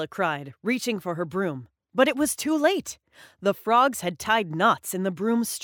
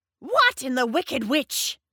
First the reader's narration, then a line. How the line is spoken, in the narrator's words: screeched Drusilla